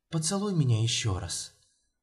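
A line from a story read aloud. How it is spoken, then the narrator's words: Whispered. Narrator (Russian): прошептала Юля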